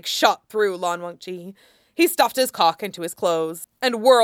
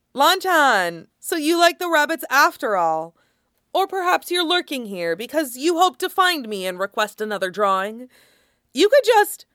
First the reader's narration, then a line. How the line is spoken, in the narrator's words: a voice called out